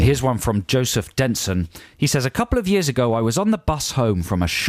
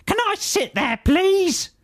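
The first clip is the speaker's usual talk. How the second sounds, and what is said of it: Loud barking evil old lady voice. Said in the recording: “she barked loudly ... Is that a good impression? ... That's very good. ... it made her sound quite sort of evil ... Old lady.”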